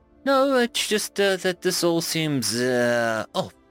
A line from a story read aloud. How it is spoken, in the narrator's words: she replied hesitantly